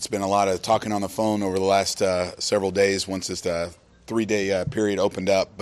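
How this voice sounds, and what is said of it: Hoarse voice. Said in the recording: “Forgive my hoarse voice.”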